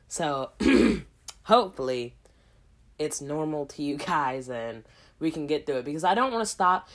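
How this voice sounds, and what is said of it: Hoarse, sick-sounding voice. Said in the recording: “I know that my voice does not sound normal, and that's because I'm currently sick right now... losing my voice a little bit. Or if I sound hoarse”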